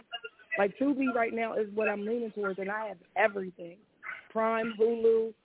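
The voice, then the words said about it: Very hoarse, nearly lost voice. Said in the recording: “My voice is gone. It's so hoarse.”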